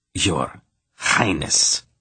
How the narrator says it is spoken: he snarled from between clenched teeth

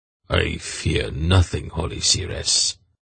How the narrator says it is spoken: he replied in a cold voice

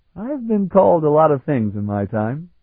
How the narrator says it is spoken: Sarabian laughed

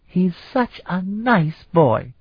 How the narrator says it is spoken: she exclaimed

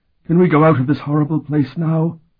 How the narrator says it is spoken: Okuda said in a shaking voice

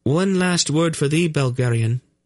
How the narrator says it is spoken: said in a quavering voice

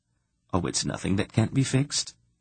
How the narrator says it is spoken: Polgara said calmly

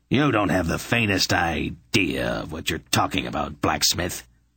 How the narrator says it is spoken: Belden growled at him

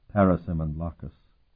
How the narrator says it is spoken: Sparhawk replied quietly

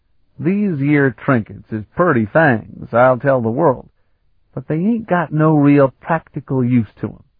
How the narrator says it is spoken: Kalador was saying in his broad, colloquial drawl

